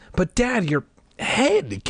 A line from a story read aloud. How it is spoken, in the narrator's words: Casey stammered